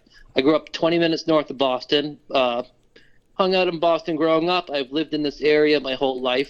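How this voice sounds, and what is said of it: Mild Boston accent. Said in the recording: “that does sound like a real authentic Boston accent ... So it is an authentic Boston accent. I'll bet not heavy for this area”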